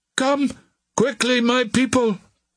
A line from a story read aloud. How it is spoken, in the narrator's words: he cried